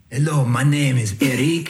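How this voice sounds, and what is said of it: Put-on accent. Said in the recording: “I just thought if I spoke with an accent, it might help.”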